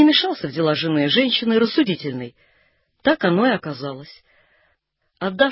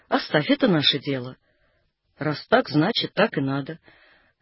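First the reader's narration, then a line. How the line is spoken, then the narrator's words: Calm. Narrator (Russian): Она спокойно сказала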